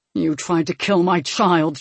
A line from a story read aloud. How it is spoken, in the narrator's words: Tristan growled